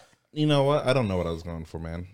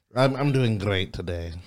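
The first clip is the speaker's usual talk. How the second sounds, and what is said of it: Put-on Scottish-like European accent. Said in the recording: “you've got another voice for us ... I think you're going for some kind of European accent ... Scottish ... they say mix”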